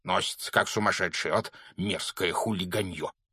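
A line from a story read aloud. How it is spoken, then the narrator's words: Annoyed grumbling. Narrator (Russian): проворчал он, когда их обогнал мопед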